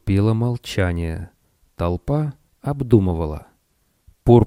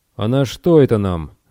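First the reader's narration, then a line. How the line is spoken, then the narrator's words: Asked rudely. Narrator (Russian): грубо спросил Арт Барк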